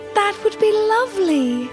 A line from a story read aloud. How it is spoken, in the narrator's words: Emily exclaimed, her face lighting up